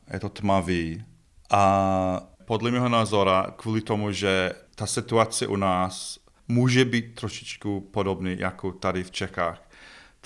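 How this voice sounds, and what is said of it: Czech spoken with Scottish accent. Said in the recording (Czech): “vy se skotským přízvukem”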